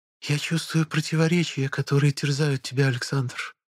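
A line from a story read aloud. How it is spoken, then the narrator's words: Whispered. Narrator (Russian): прошептала нимфа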